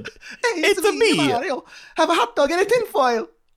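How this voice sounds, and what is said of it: Put-on Mario-style cartoon Italian accent. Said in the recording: “That doesn't sound anything like a New York guy... Sounds like, sort of like Mario or something.”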